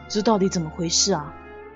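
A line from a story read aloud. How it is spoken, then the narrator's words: Muttering to self. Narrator (Chinese): 于是我喃喃自语说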